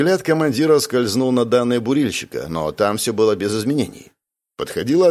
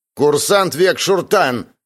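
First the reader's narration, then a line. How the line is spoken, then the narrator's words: Barked. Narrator (Russian): рявкнул Райн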